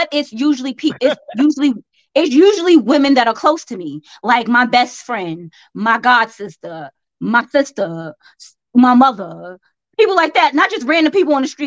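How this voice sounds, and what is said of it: Southern American accent. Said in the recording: “I may have a southern accent”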